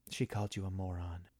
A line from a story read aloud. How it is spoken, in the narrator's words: Marjorie related, then muttered